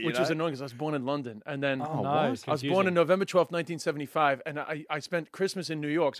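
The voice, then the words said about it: Strong New York accent. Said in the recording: “I know I have a very strong New York accent”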